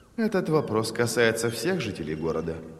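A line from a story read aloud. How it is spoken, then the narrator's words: Calm answer. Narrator (Russian): спокойно ответила Эйдар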